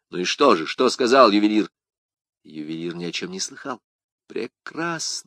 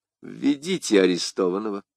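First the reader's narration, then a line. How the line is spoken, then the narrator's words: Plain. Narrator (Russian): сказал кардинал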